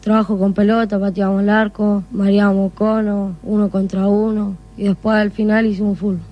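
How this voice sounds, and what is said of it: Young child's voice. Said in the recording (Spanish): “La voz de niño todavía”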